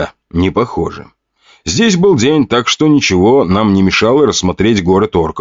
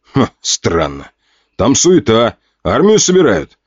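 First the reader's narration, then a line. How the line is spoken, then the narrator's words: Shouted. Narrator (Russian): крикнул один из бойцов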